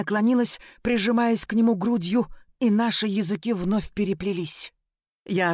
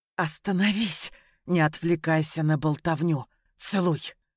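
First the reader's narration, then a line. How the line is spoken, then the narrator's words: Hoarse obsessed command. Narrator (Russian): Хриплый приказ, брошенный голосом, в котором сквозила одержимость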